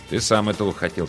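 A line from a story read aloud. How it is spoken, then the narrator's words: Quiet reply. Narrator (Russian): так же тихо ответил он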